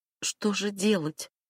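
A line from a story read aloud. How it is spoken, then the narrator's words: Quiet, hopeful question. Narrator (Russian): тихо спросила Эмма, с надеждой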